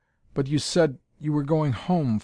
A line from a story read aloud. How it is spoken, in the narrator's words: faltered Althora